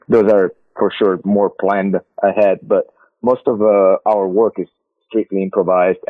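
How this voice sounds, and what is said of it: Italian-accented English. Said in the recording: “They understand my accent ... it can get like really Italian”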